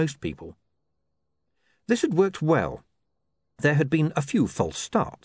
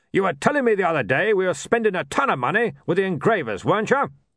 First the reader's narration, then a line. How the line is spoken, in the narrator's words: he barked